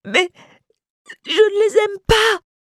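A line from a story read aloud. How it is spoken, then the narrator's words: Sobbing. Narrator (French): sanglotait-il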